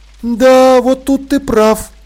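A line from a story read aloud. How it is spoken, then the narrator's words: Sighing. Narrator (Russian): Полли вздохнула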